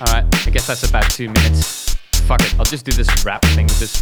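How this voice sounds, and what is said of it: Usual voice. Nothing is said of it.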